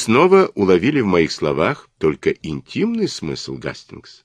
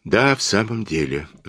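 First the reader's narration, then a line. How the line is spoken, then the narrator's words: Embarrassed sigh. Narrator (Russian): вздохнул я краснее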